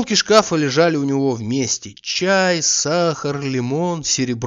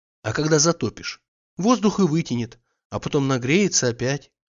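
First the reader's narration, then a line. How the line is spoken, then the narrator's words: Quiet reply. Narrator (Russian): отвечала она тихо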